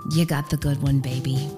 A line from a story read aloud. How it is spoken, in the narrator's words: The woman leans down towards my mother, who's holding me, and says in a hushed tone just loud enough for everyone to hear